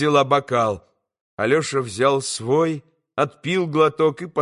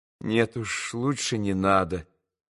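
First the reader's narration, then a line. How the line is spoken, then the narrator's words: Quiet, smiling. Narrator (Russian): улыбнулся он тихо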